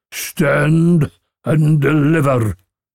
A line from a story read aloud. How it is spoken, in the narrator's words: yells the brigand